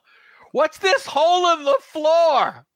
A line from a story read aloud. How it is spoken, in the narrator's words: somebody yell